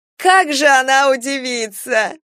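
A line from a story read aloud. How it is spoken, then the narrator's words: Laughing. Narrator (Russian): опять засмеялась Любка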